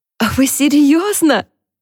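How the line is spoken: Squealing. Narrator (Russian): взвизгнула Харпер

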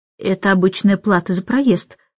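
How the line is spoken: Calm reply. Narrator (Russian): спокойно отозвался

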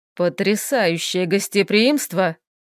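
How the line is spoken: Grumbling. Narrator (Russian): ворчал он

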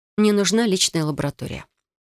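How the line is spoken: Calm statement. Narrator (Russian): спокойно сообщила я

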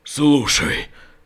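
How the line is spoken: Barely audible breath. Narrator (Russian): выдохнул Родос едва слышно

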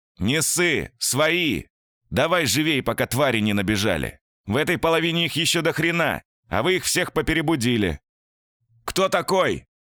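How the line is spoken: Shouting back. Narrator (Russian): прокричал Петров в ответ

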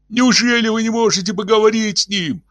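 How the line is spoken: Howling. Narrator (Russian): взвыл он

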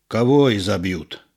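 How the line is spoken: Calm deep voice. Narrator (Russian): спокойно басил Петро

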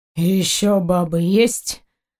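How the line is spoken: Weary question. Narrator (Russian): устало поинтересовался Заури

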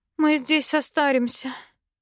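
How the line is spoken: Moaning. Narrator (Russian): простонала я

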